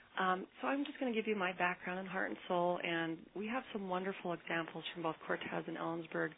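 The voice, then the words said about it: Soft, weak voice. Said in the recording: “she might sound a little soft if you need to bring your volume up a little bit. She's just getting over a cold ... apologize for the voice”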